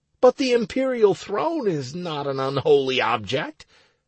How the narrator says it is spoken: I cried, surprised

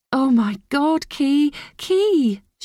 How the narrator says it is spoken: she cried

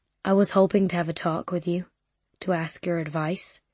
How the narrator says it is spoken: he says

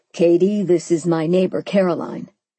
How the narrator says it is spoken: Simon said

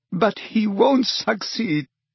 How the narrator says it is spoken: sobbed Narcissa

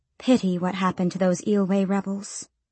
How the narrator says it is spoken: she said quietly enough that no listening ears might hear

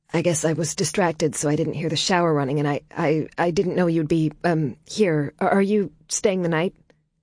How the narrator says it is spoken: Her stammering was almost cute

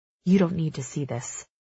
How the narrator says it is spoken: Maven mutters

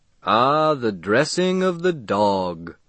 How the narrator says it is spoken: intoned a portly man

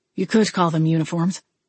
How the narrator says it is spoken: Wade replied, his voice filled with tension

